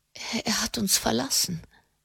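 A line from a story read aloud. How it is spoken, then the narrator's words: Stammering. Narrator (German): stammelte sie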